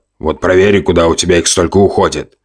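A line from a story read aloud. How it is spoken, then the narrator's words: Grumbling. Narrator (Russian): пробурчав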